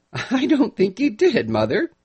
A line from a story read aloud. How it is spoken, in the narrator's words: Nellie agreed with a laugh, which betrayed a certain amount of irritation